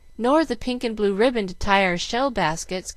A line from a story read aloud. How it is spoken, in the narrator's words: cried Mamie